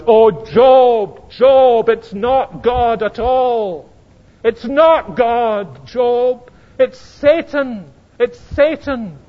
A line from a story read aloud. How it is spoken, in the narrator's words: wouldn't you want to shout out